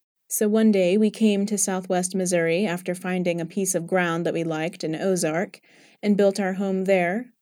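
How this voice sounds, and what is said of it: English accent. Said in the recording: “when people hear my accent, they would invariably ask if I was from England”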